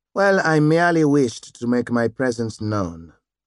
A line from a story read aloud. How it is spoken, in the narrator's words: Eunice said